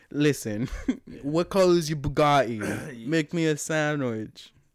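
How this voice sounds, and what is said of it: Imitates another person's voice. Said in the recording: “is pretending to be an alpha male like fucking Andrew Tate ... I don't know how to sound like him ... my Andrew Tate impression ... He doesn't talk like that.”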